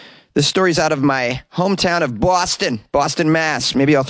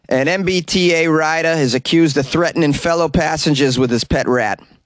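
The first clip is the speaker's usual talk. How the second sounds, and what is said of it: Thick put-on Boston accent. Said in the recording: “a little bit of the Boston accent to flavor it up ... difficult to understand some of the words when I'm speaking with a thick Boston accent”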